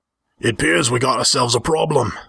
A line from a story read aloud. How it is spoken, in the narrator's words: Altrus growled